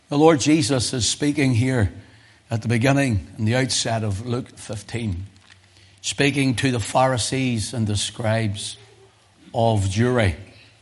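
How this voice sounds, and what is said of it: Hoarse voice. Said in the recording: “I'm just recovering from laryngitis”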